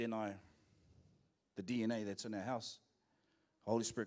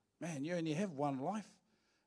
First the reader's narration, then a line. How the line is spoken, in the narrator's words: we started having a little laugh and a bit of banter, and then one of them says to me